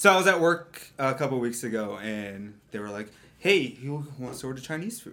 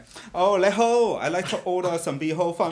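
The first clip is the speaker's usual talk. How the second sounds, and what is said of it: Put-on Chinese accent. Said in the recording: “I do get an Asian. I people say it's a good Asian impression ... You should order it with your Chinese accent.”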